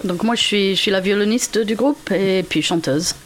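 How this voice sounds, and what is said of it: Slight English accent in French. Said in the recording (French): “Vous avez un petit accent, on dirait. ... Un petit accent, voilà, ouais. Je viens de Manchester, au nord de l'Angleterre.”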